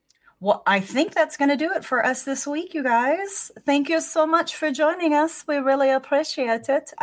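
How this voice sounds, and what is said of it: Speaks in a changed accent. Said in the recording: “I don't know what's going on with my accent. ... Yeah, you've completely changed your accent.”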